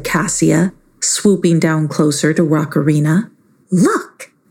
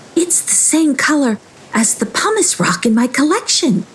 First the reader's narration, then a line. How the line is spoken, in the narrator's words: she yelped excitedly